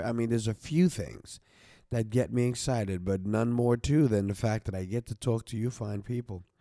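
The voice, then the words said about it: Nasal, congested voice. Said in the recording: “I still have this little nasal going on in my mouth, in my nose ... the twang ... you got a little nasal thing going there”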